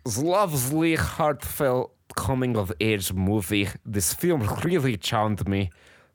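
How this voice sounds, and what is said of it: Silly funny voice. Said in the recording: “I will read this review in a funny voice.”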